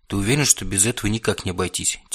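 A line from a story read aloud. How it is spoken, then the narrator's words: Quiet question. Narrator (Russian): тихо спросил бывший царь вампиров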